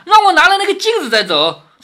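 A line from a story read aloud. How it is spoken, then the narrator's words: Shout. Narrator (Chinese): 贾瑞叫道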